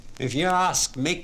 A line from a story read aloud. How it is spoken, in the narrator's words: he said